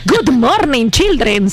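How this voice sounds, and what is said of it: English with a heavy Yucatecan accent. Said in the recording (Spanish): “acento yucateco marcadísimo, pero era divertido porque era la maestra de inglés ... era el acento yucateco aporreadísimo ... En inglés”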